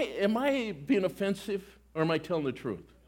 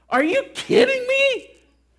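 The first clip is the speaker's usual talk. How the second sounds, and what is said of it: Voice rises to high pitch. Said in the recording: “Did my voice just go high?”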